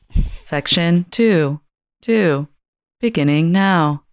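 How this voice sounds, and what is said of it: Automated transit announcer lady voice. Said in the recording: “my transportation voice. Transportation lady voice ... It's kind of creepy.”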